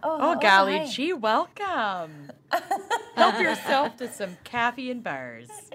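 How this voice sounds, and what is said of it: Exaggerated Minnesotan accent. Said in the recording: “unleash their worst Minnesotan accents”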